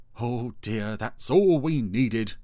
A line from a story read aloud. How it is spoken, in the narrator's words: exclaimed Dougal